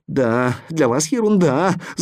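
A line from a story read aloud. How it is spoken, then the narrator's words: Whining. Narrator (Russian): захныкал портной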